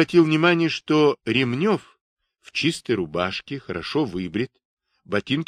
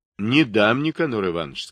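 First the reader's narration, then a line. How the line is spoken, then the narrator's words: Plain. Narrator (Russian): сказал я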